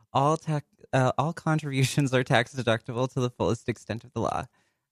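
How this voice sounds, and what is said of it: Smooth radio announcer voice. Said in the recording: “I was trying so hard to keep my stealthy announcer voice, but then I fucked up.”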